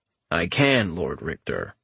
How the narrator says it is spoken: the Remnant replied in his deadpan voice

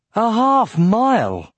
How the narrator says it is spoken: exclaimed Aragorn

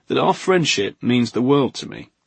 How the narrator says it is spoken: Simonson only groaned

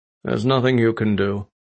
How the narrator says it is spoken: he said coldly

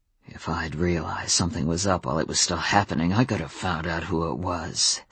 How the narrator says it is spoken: said Adam, a growl in his voice

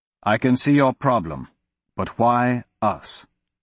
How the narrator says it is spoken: Royce asked coldly

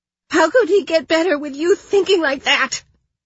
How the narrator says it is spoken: She spat

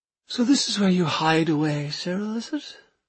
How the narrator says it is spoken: she asked dreamily

